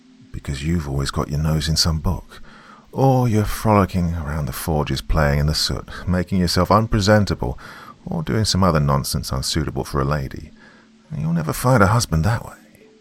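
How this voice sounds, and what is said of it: Grouchy, proper governess voice. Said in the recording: “doing his best impression of the grouchy, short-tempered and exceedingly proper governess”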